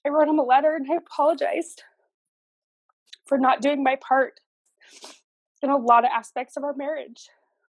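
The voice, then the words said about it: Emotional voice. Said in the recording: “sorry, I'm getting emotional again”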